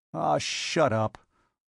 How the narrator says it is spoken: growled Robert

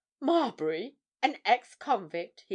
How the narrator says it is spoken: he exclaimed

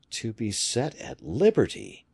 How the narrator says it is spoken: he murmured

